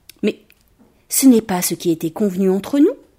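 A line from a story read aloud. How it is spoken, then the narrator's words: Calm voice. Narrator (French): dit le joueur de flûte d'une voix calme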